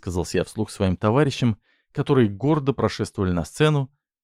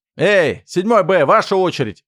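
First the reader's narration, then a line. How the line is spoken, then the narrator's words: Shouted, older schoolboy. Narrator (Russian): крикнул один из старшеклассников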